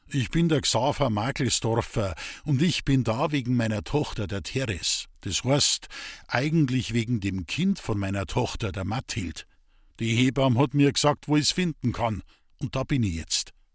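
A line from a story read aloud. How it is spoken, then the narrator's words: Loud clear speech. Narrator (German): sagte laut und deutlich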